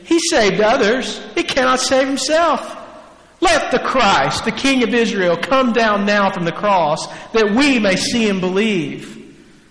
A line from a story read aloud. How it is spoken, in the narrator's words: the chief priests with the scribes mocked him to one another, saying